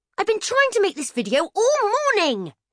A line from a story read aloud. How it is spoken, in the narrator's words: she shouted